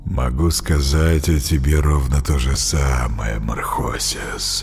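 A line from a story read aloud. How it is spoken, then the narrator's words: Low velvety voice. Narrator (Russian): проговорил он низким, бархатистым голосом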